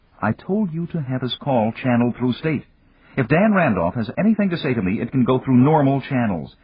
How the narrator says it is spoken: Frowning, Jane snapped

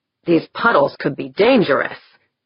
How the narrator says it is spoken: he half growled

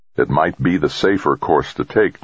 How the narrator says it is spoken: Jamie said

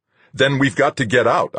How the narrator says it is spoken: snapped

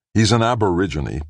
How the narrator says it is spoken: Brad snapped

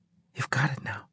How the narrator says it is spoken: she said in a hushed tone

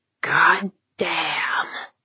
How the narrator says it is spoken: Jaeger breathed

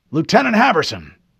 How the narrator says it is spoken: the Admiral barked

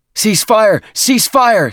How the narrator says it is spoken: Stison yelled

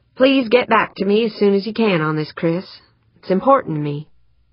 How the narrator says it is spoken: she took a breath and said more evenly

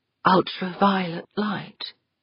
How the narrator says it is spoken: Westfall murmured

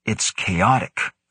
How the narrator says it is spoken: Grant grumbled

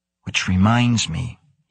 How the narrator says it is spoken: he whispered

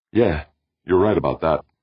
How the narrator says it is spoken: Brandon agreed shakily

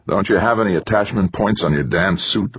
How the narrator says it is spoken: Wanamaker grumbled

